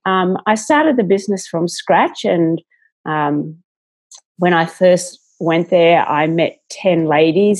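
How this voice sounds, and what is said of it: Australian accent. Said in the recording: “as you can hear by my accent, I'm here in Australia, but I live in Sydney”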